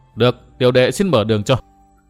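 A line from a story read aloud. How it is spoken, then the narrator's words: Laughing loudly. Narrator (Vietnamese): Trang Ngọc cười to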